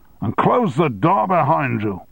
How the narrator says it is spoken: shouted

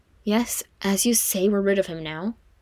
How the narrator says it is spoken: Frodo said with another sigh

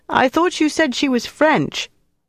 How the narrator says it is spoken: Shouting into Mark's ear over the sound of the band, she said

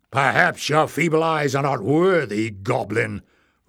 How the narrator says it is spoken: roared Glock

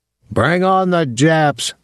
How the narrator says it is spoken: someone shouted

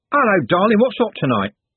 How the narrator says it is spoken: Trev said, cheerfully

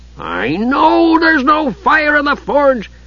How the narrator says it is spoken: Flint howled, so infuriated that he started to sputter

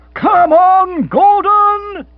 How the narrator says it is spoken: He roared

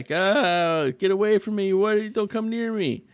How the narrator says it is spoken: I hear that guy screaming like

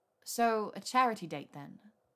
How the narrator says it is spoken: Hermione said in a bland tone

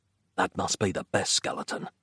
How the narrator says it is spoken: Nick whispered

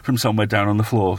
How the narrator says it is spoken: Sweezy groaned

